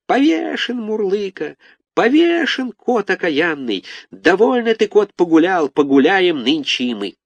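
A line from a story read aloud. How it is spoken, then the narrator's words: Squeaking in chorus. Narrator (Russian): Все запищали мы хором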